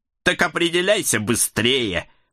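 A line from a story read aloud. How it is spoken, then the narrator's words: Snorting. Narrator (Russian): фыркнул черный умник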